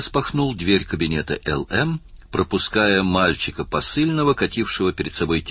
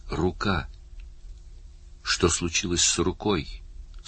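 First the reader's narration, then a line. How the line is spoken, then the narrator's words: Weak voice, through door. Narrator (Russian): слабым голосом спросил Барни, обращаясь к закрытой двери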